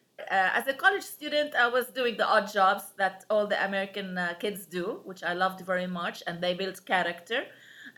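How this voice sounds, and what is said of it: Heavy foreign accent. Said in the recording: “you have a very heavy accent”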